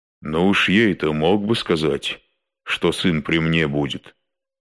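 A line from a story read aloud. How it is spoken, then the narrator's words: Plain. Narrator (Russian): сказал он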